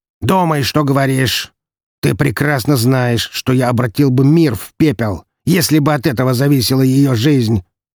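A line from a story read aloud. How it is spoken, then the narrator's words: Bark, then calmer. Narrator (Russian): рявкнул, а затем чуть спокойнее добавил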